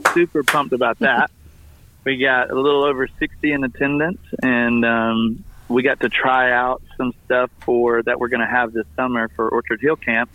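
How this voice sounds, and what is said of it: Slightly hoarse voice. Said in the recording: “I got a little hoarse voice from it”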